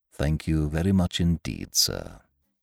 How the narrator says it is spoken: he said in a low voice

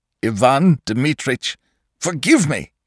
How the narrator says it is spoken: he cried

